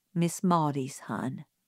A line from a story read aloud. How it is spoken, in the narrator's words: said Atticus gently